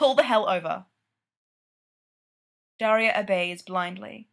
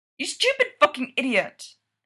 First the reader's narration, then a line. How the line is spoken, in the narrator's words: she snaps